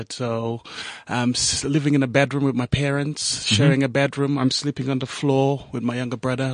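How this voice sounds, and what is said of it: Slight accent. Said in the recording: “I picked up a little accent there.”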